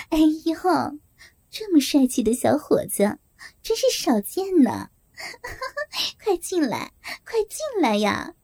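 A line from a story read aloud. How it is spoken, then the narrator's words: Sneering. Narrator (Chinese): 梅姐冷笑着说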